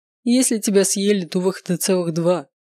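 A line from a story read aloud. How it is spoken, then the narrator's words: Laughing. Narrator (Russian): расхохотался Даниэль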